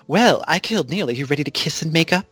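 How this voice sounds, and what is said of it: Imitates a TV character's voice. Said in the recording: “My little impression, I'll try it ... Zelina was just suddenly like”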